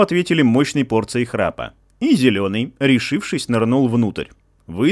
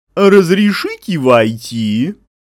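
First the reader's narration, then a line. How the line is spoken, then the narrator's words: Brazen, sugary drawl. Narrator (Russian): Зеленый, набравшись наглости, … сладким-сладким голосом протянул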